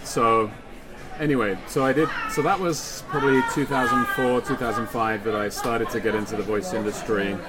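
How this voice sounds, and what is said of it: British accent. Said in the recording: “being a British voiceover guy here ... if they're asking for a British voice”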